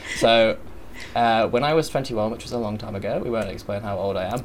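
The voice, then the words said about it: English accent with Australian tinge. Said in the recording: “So I'm English... Probably could tell by my accent, but I do have an Australian type.”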